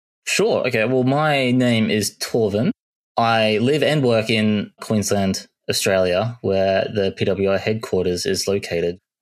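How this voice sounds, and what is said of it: Australian accent. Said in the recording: “Nice Aussie accent there.”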